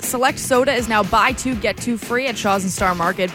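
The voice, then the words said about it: Congested, nasal voice. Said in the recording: “I'm a bit congested this morning ... if you hear it in my voice ... I feel it in the back of my throat and in my nose”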